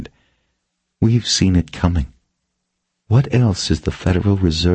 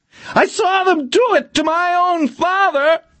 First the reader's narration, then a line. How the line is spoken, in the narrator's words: he screamed